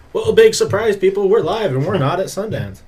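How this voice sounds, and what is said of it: Radio announcer voice. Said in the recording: “That's a good radio voice.”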